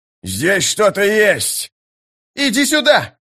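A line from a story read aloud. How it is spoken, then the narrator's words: Excited yell. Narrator (Russian): завопил Истин с лестницы бака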